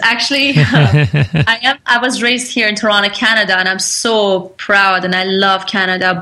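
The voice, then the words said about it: Mixed Canadian and Persian accent. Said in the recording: “accent is that a pure Canadian accent or is that from elsewhere? ... a mixture of Canadian, Persian, a little bit of Turkish ... all mixed up accent”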